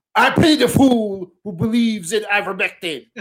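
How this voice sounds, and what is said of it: Imitates another person's voice. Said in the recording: “your best impression of his catchphrase”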